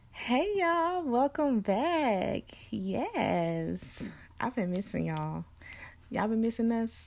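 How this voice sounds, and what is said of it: Excited, energetic voice. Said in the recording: “as you can hear in my voice, I am so excited”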